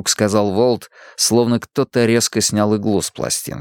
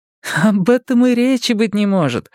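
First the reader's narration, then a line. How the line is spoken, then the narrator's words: Laughing dismissal. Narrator (Russian): сказала Мия, даже рассмеявшись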